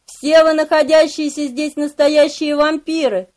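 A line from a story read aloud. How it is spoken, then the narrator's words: Shouted. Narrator (Russian): выкрикнул я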